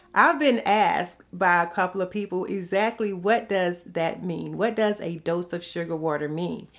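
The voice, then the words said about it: Slight Southern drawl. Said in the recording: “if you can't tell from my accent, there's a little bit of southern drawl in there a little bit. You know, some people hear it easily.”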